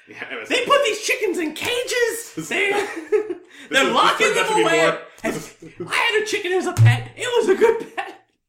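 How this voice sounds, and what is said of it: Imitates another person's voice. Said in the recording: “a good Rachel Maddow impression.”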